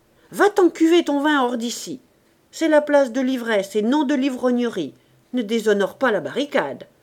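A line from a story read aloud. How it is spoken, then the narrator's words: Shouting. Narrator (French): cria-t-il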